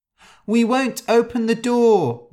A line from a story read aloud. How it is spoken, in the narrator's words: they cried